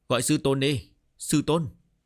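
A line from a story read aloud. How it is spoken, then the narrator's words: Laughing loudly. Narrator (Vietnamese): Trần Đông Hà cười lớn, bảo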